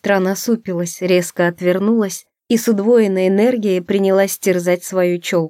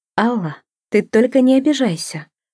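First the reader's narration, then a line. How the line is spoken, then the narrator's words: Timid. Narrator (Russian): робко начала я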